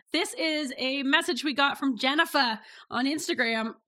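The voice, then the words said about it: Put-on New England accent. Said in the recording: “She's not from New England. I added that accent.”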